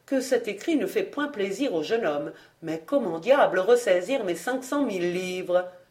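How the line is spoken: Murmured. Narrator (French): murmura Béchamel

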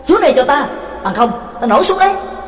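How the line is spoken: Impatient loud shout. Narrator (Vietnamese): Trắc Mộc Cường Ba đã hết kiên nhẫn, bèn lớn tiếng quát

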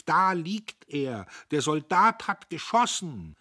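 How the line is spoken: Girl shouting from afar. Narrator (German): ein Mädchen, das schon von Weitem rief

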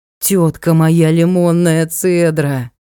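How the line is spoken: Moaning. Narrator (Russian): Простонал Ник

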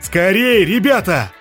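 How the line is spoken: Shout. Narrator (Russian): закричал Блай

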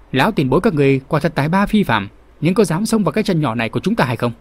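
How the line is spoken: Loud question. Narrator (Vietnamese): Kinh Ngân Tiên Hồ Diên Dị lớn tiếng hỏi

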